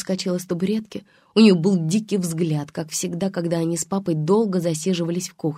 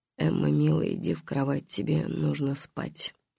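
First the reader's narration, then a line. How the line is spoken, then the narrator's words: Flat expressionless mumble. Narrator (Russian): Голосом, безо всякого выражения, он пробормотал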